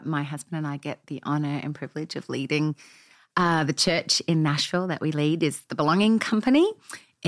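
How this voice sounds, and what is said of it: Australian accent. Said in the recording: “as you can tell by my accent ... we came from Australia”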